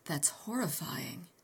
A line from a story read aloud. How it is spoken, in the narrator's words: I said hoarsely